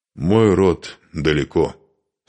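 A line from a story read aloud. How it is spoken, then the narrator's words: Dry reply. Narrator (Russian): сухо ответил Духарев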